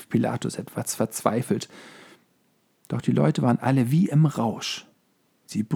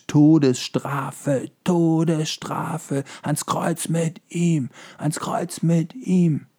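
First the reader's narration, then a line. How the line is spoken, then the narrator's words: Crowd screaming frantically. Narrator (German): schrien alle wie verrückt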